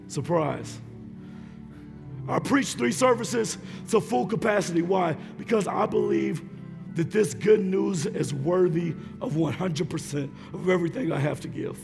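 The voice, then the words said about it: Hoarse, strained voice. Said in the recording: “If you can't tell, I'm losing my voice.”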